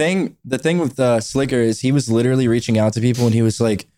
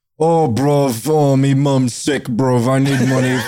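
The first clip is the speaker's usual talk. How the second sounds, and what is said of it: Bad British-Persian impression of Slicker. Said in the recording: “worst fucking impression ... my British Persian”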